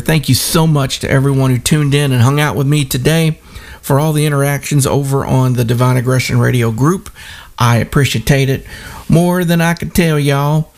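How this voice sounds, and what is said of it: Southern US accent. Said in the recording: “I just reverted back to my old accent ... my southern accent comes through sometimes”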